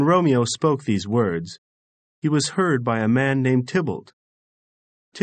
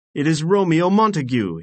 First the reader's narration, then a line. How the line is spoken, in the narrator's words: shouted